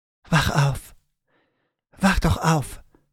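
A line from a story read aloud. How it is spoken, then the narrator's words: Whisper. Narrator (German): flüsterte sie ihr zu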